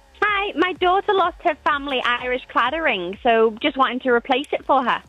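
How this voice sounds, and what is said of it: Irish accent. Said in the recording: “with that Irish accent”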